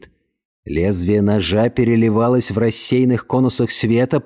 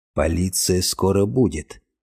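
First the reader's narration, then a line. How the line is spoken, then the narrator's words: Quiet, hesitant. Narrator (Russian): наконец тихо произнес Альф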